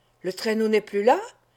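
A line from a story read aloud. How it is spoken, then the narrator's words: Crying out. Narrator (French): s'écria André Vasling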